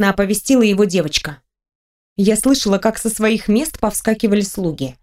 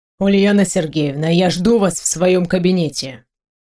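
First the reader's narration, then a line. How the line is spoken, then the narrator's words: Cold. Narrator (Russian): проговорил начальник холодно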